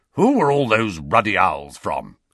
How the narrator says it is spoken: he growled

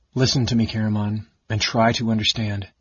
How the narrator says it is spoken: Raceland said in an expressionless tone that made his twin shudder

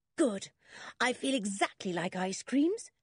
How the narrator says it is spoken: said George happily

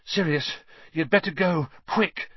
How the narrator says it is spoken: Harry panted

